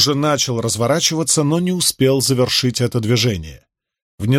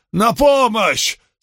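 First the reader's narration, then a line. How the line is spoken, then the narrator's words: Belated yell. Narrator (Russian): с опозданием завопил он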